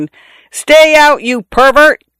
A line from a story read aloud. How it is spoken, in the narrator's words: I yelled in a voice not mine